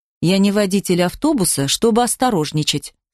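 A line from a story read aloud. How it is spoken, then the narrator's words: Plain. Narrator (Russian): сказал он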